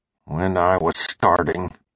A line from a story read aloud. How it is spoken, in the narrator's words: he said, almost under his breath